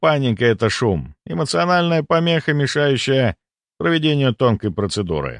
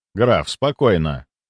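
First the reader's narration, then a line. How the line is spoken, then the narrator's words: Cold and even. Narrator (Russian): Мой голос прозвучал холодно и ровно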